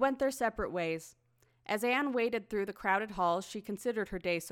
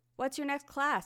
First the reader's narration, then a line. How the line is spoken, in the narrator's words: asked Joseph